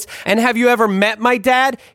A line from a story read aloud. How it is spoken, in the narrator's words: He yelled at me in capitalization, italics, and bold